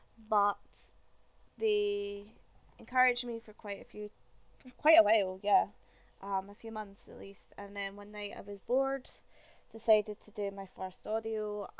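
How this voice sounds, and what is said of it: Scottish accent. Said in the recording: “a Scottish accent isn't something that you hear a lot on GWA ... I don't particularly like my accent”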